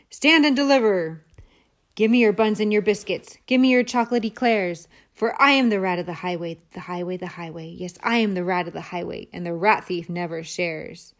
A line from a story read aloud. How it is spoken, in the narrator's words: the Highway Rat, who thundered